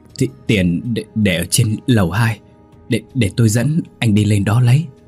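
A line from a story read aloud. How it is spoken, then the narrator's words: Trembling voice. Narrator (Vietnamese): Bà ta run run nói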